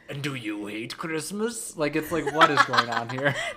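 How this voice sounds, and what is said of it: Pirate-like drag queen character voice. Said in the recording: “My Grinch sounds like a pirate... I sound like a pirate drag queen”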